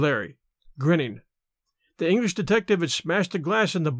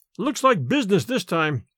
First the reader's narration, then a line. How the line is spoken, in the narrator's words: exclaimed Larry